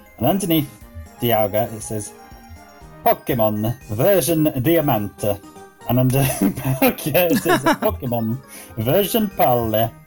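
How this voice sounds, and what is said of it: Italian-sounding put-on Spanish accent. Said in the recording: “Was that your Spanish accent? It was a very Italian-Spanish accent.”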